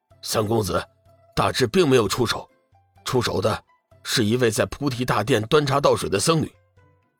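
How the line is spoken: Hurried explanation. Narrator (Chinese): 中年男子急忙解释道

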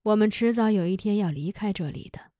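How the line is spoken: Sighing. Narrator (Chinese): 瓦罗加又叹息了一声，说

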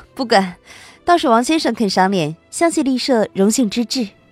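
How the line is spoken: Cold, smiling. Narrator (Chinese): 白慕薇冷漠的微笑

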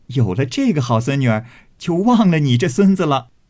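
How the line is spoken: Laughing. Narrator (Chinese): 又笑道

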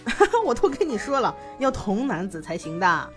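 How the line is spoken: Suppressing laughter. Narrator (Chinese): 魏无羡好不容易忍住笑声说

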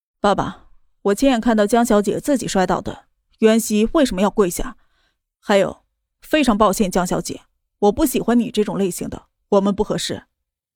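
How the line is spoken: Cold. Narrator (Chinese): 莫泽冷声道

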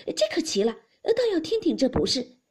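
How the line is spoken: Laughing together. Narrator (Chinese): 贾母听了，与众人都笑道

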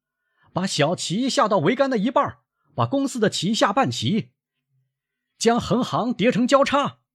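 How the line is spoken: Shouting. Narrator (Chinese): 他又喊

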